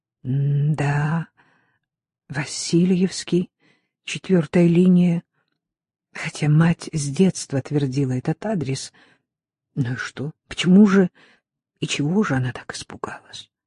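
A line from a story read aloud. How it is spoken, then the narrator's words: Slow, recollecting. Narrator (Russian): Проговорила медленно, будто припоминая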